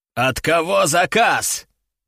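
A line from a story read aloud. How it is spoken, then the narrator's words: Growled. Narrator (Russian): прорычал командир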